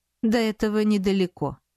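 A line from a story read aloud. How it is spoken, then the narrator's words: Plain. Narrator (Russian): ответил он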